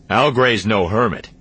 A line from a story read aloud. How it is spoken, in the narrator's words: Han grumbled